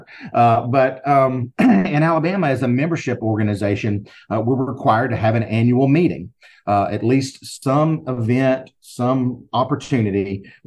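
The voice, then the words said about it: Southern US accent. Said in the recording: “in the state of Alabama where I am, if you can't tell by my accent, I'm sure you can. You knew it was somewhere in the South”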